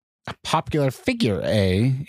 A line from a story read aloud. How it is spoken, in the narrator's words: Incubus sneered